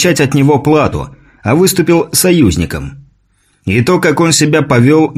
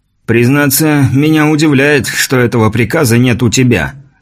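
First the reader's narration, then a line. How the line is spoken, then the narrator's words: Snort. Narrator (Russian): хмыкнул Кавальканти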